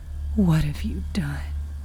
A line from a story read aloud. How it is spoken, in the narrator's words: whispered Porter